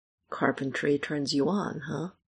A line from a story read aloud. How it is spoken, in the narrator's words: Michael mumbles against the kiss